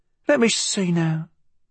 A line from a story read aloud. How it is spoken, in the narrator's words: she murmured to herself